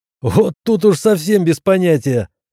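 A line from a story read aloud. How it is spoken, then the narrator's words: Laughing. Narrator (Russian): рассмеялся Седой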